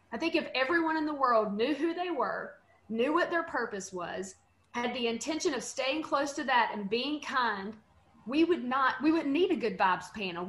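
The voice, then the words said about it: Western American accent. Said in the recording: “It appears my accent would make me the Western string”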